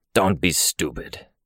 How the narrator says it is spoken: Snag said, his voice a rough growl, volume raised

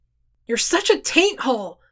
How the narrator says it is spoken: Scribe screamed the words

